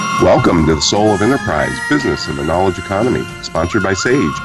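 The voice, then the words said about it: Deep congested radio-like voice. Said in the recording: “You sound very AM radio voice this week. ... I'm kind of fighting a cold”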